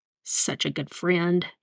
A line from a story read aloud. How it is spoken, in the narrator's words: he muttered